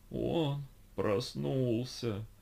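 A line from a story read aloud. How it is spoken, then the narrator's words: Groaning. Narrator (Russian): простонал 417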